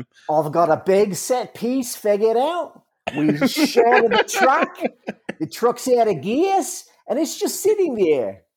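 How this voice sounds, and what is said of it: Put-on Australian New Zealand accent. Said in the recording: “my only realm of Australian New Zealand accent. Yeah, it's to just go up on the end of every sentence”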